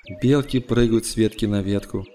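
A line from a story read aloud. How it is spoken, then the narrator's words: Plain. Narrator (Russian): сказала мать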